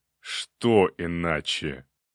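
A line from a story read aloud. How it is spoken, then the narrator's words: Quiet sinister count's question. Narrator (Russian): Зловещим голосом тихо спросил граф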